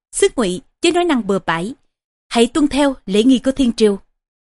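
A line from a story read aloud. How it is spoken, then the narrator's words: Stern voice. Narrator (Vietnamese): nghiêm giọng nói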